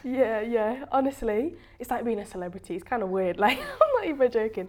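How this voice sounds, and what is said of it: British English accent. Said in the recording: “is obviously like British and she has like the British accent”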